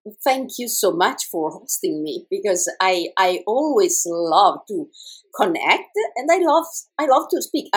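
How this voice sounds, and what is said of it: Italian-accented English. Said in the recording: “I'm Italian ... my creative accent, and I hope it's understandable”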